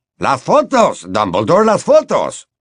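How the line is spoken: Shouted. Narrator (Spanish): gritó Bagman

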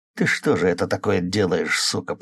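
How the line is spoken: Hiss through teeth. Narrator (Russian): прошипел сквозь зубы

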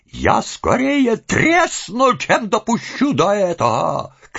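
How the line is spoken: Woman shouting. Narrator (Russian): кричала сожительница Солопия

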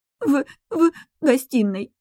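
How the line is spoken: Strained, forced words, woman. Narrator (Russian): выдавила женщина

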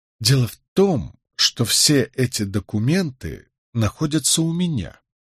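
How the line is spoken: Quiet statement. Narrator (Russian): негромко сообщил я

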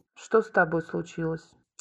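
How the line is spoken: Icy tone. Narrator (Russian): ледяным тоном произнес Юра

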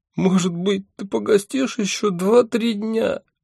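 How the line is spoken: Tearful question. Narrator (Russian): сквозь слезы спрашивала она

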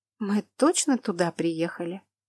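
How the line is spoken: Muttered. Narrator (Russian): пробормотала я

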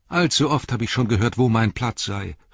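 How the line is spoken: Called out. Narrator (German): rief

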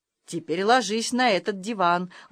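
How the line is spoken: Gentle, tender. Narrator (Russian): ласково сказал он

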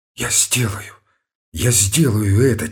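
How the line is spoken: Quiet exclamation. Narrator (Russian): тихо воскликнул Ромашов

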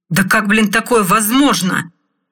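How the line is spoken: Furious yell. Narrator (Russian): В бешенстве заорал Макс

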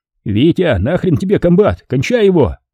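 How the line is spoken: Sweaty yelling from behind. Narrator (Russian): Орал я сзади, обливаясь потом

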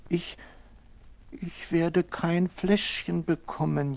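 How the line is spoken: Baby whining. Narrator (German): jammert das Baby

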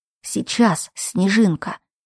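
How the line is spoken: Hiss. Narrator (Russian): Кайл прошипел

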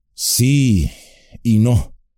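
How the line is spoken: Slow reply. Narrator (Spanish): respondió lentamente

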